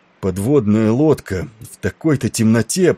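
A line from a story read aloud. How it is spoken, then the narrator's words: Moaning. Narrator (Russian): простонал Тернер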